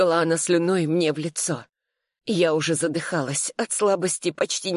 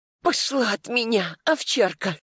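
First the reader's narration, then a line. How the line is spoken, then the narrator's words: Strained wheezing reply. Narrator (Russian): Просипела в ответ, стараясь скинуть старуху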